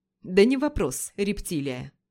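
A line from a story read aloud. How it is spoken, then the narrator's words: Dandy's smirking snort. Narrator (Russian): Хмыкнул пижон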